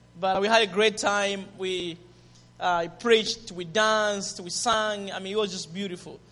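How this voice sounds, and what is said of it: Zambian English accent. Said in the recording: “Is my accent, Zambian accent, okay? ... Zambian English”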